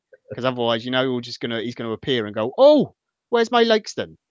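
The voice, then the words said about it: Terrible put-on Welsh accent. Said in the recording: “There's my terrible Welsh accent.”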